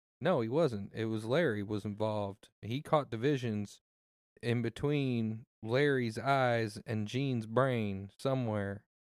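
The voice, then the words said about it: Speaking with a noticeable accent. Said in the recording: “his accent's back ... I'm just going in and out of it.”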